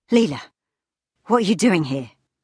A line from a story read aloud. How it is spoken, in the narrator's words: His voice skipped between different versions of itself, as if it had been run through a broken auto-tuner